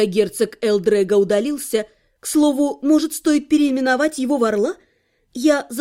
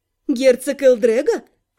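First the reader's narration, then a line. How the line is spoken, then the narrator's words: Snorting. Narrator (Russian): фыркнула я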